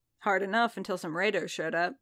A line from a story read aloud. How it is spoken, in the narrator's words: Din said